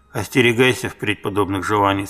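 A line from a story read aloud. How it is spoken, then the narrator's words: Plain. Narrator (Russian): сказала Сирин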